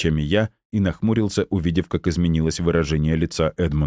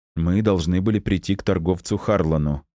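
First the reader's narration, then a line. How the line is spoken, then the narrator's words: Plain. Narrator (Russian): ответил я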